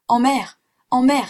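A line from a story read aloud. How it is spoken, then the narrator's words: Exclaiming. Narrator (French): s'écria-t-il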